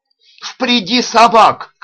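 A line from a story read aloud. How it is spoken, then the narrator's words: Shouting. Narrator (Russian): кричал Уквун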